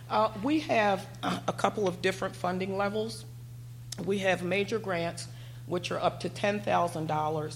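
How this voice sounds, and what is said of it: Strained voice giving out. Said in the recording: “my voice is kind of giving out”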